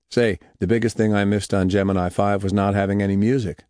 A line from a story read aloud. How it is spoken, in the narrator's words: said Conrad